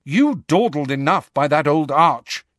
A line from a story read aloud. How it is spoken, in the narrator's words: she said crossly